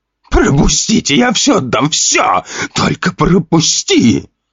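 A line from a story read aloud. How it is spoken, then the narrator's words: Shouted. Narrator (Russian): Выкрикнул он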